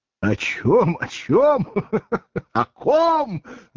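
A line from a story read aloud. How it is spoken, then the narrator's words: Speaking after laughter. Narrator (Russian): заговорил Воланд, перестав смеяться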